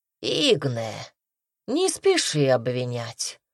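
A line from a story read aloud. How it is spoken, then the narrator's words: Calm. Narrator (Russian): спокойно заметил Ханум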